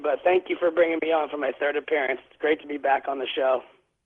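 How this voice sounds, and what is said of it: Slightly raspy voice. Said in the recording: “I got the flu earlier this week, and so my voice is going to be a little bit raspy,”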